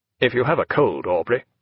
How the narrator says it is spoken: said Hart in a more natural voice

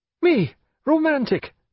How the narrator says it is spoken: cried James with real indignation

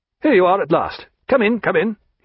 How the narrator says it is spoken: he cried

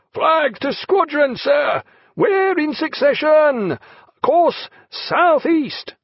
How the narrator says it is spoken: over the roaring of the boatswain

